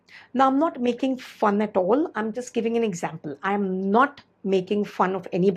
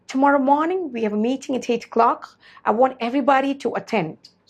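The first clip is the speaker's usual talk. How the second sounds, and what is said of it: Put-on hard-to-understand accent. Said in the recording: “that accent, which might be difficult for you to understand or pick up”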